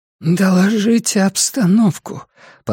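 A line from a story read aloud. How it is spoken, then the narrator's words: Hoarse demand. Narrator (Russian): потребовала Лин хриплым голосом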